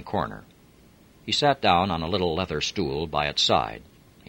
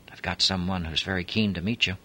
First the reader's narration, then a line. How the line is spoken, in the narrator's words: The proprietor whispered